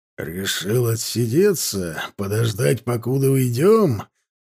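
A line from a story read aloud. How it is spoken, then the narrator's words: Through gritted teeth. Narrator (Russian): процедил ловчий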